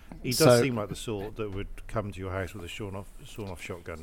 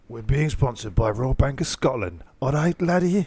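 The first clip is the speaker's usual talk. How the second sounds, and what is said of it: Put-on Scottish accent. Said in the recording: “I so love your Scottish accent. It's so good.”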